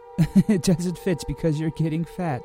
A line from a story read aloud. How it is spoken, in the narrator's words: laughed the Duke